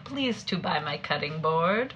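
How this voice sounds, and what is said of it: Mock foreign accent, broken English. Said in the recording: “Sounds like you're mocking an Asian woman's accent. ... Oh, it's like Eastern European.”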